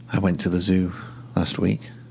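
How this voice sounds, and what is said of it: Speaking quietly. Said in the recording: “I'm saying it quietly.”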